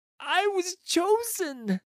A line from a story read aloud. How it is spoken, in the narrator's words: the voice pleads